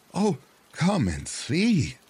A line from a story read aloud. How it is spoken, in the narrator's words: exclaimed the wife